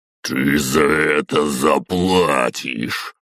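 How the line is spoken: Through gritted teeth, menacing. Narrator (Russian): Процедил громадный мясной магистр

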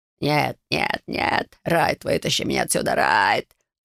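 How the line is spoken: Agonized screaming. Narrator (Russian): жутким голосом кричал Блейз, захлебываясь от боли

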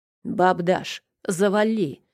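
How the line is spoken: Barking, harsh. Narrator (Russian): рявкнул Макар

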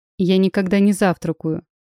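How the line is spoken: Cold reply. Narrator (Russian): холодно ответил он

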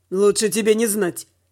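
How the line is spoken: Wry snort. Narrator (Russian): хмыкнул Дима

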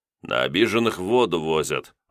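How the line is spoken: Sighing. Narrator (Russian): вздохнул я

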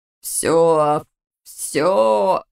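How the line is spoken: Hoarse wheeze. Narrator (Russian): сипел бывший муж

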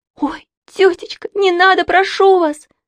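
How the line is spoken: Pleading. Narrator (Russian): взмолилась Саша

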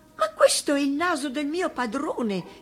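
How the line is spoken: Horrified exclamation. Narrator (Italian): esclamò inorridita

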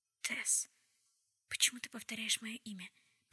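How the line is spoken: Whisper. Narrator (Russian): прошептала она

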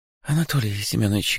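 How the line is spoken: Ingratiating, insinuating voice. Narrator (Russian): говорит она вкрадчивым голосом

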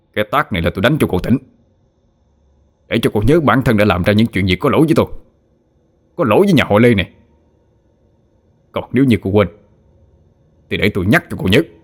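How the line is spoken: Loud shout. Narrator (Vietnamese): cậu đã lớn tiếng quát

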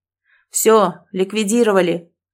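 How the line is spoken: Shouted. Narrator (Russian): выкрикнул пожарный

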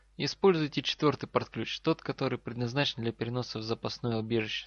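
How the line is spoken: Calm but quick. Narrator (Russian): спокойно, но быстро произнес лежащий человек

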